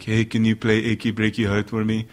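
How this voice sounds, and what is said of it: Dumb voice with odd accent. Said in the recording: “just do a dumb voice ... What accent is that, by the way? ... he just had a weird accent ... I could impersonate him. And so I just took his voice”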